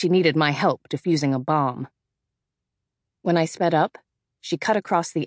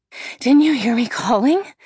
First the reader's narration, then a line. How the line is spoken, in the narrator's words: Amy panted